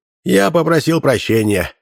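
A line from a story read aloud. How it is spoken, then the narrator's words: Sighing. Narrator (Russian): вздохнул зритель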